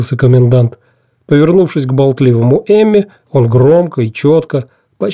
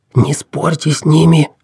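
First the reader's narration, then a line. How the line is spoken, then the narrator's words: Fervent whisper. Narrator (Russian): жарко зашептал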